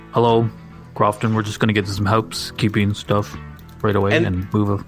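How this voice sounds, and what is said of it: Boring, flat imitation of another person. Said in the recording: “That was my Sam Harris impression. He sounds very boring.”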